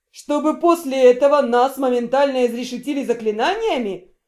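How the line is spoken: Laughing. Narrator (Russian): Эльрион расхохотался от подобного предложения

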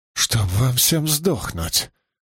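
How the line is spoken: Weak muttering through teeth. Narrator (Russian): процедил Риналь без особой, впрочем, силы в голосе

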